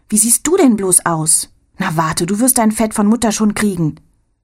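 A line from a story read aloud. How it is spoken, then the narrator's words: Call. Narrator (German): ruft Anne Rose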